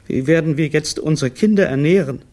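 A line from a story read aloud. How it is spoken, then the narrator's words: Sobbing. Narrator (German): schluchzte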